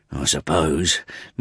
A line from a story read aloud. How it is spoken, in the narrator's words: muttered Gabriel